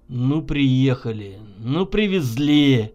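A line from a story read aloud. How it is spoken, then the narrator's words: Unfriendly grumble. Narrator (Russian): Недружелюбно буркнул Егор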